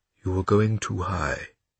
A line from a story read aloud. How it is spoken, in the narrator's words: said Pavel in a quiet voice that immediately made Bruno feel safe